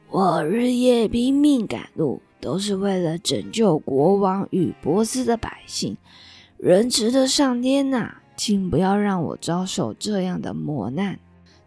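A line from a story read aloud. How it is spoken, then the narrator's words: Hoarse murmur. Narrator (Chinese): 卢斯塔姆沙哑的低喃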